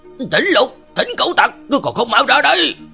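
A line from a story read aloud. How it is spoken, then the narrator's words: Angry shout. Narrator (Vietnamese): hắn ta còn cất giọng giận dữ hét lên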